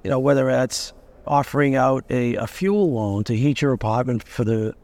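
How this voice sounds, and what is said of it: Boston accent. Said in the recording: “there goes the Boston accent”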